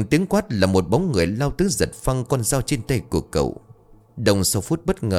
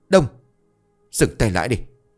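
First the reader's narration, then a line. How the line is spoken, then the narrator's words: Sharp shout. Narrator (Vietnamese): tiếng quát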